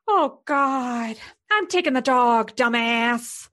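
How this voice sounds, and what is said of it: Jennifer Coolidge impression. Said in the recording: “I can do a pretty good Jennifer Coolidge ... I'm Jennifer Coolidge”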